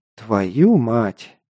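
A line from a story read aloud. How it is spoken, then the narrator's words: Quiet. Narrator (Russian): тихо произнес Паша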